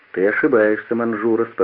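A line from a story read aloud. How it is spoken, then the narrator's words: Calm. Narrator (Russian): спокойно сказал Флегонтов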